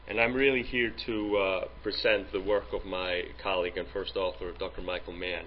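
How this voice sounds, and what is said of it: Icelandic accent. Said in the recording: “I'm from Iceland in Europe, in case you're thinking about the accent”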